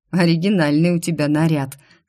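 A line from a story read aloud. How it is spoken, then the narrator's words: Smirking blond young man. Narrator (Russian): снова хмыкнул блондинчик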